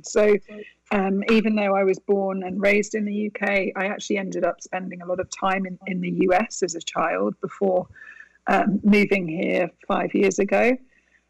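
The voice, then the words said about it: British accent. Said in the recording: “fabulous accent, and growing up in the UK”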